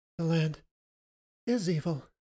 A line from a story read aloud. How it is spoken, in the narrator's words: Emily gasped